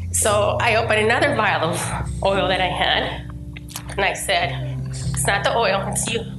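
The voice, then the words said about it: Voice still sounds sick. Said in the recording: “even though you can still hear it in my voice,”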